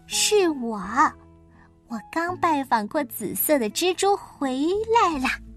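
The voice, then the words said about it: Quiet reply, suppressing a giggle. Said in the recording (Chinese): “小声的回答，他强忍住没有咯咯咯的笑出声来”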